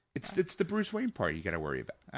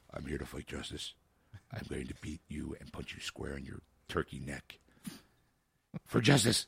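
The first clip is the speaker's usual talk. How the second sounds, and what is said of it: Lowered, deep Batman-style voice. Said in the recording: “lower your voice.”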